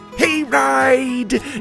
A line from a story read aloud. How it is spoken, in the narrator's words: Eli shouted